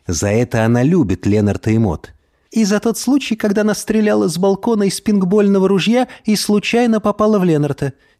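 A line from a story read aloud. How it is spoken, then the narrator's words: Giggling. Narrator (Russian): хихикала Мод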